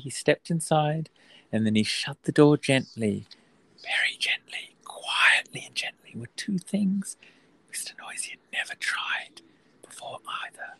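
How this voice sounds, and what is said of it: Whispering. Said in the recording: “I have no idea why I'm whispering”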